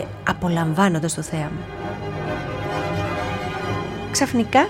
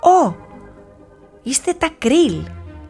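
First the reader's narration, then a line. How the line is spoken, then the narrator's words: Exclaiming. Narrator (Greek): αναφώνησε ο Κλικ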